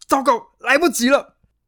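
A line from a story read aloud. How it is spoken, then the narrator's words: Inner shout. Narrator (Chinese): 贵族心中大喊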